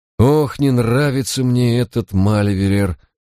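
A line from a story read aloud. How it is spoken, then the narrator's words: Sighing. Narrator (Russian): вздохнул Барак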